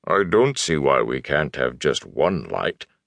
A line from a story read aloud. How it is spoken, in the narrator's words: the Ogier grumbled